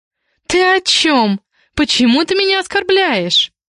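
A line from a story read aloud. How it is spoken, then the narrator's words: Shrill squeal. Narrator (Russian): взвизгнула девица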